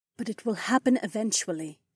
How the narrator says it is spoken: Caltrice sighed

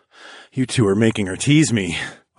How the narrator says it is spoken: I groaned

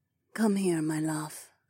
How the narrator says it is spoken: Zoe murmured

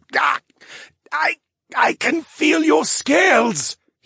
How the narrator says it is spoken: He gasped

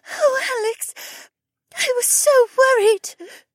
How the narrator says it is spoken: she sobbed

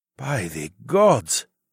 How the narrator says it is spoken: Nike breathed

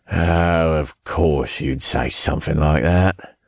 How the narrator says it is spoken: he chuckled

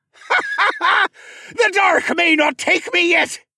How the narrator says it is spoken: Nemus screamed

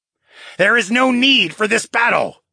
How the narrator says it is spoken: he yelled

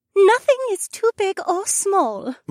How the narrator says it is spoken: my phoenix wife added in her melodious songbird voice

